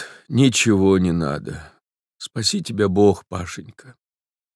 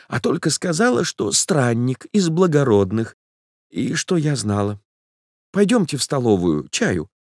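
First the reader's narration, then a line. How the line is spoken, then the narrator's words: Timid. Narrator (Russian): начала она робко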